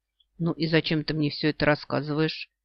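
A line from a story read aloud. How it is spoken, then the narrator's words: Glum question. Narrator (Russian): уныло спрашивает Алтангирел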